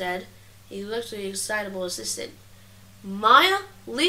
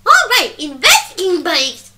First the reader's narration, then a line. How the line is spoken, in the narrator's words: she said, exclaiming